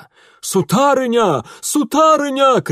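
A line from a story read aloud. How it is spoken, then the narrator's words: Shouting. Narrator (Russian): кричал он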